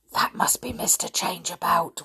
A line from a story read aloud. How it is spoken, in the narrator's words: whispered Rick